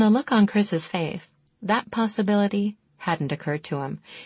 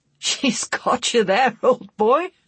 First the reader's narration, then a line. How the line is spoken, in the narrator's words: he choked